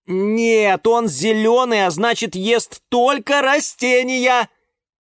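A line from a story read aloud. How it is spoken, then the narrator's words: Shout from doorway. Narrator (Russian): крикнул с порога Юра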